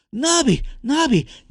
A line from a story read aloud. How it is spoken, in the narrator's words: Nick yelled as he ran towards them